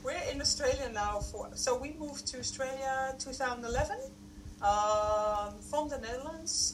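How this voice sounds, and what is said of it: Strong Dutch accent. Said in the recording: “that's from the Netherlands, so that's a really strong Dutch accent”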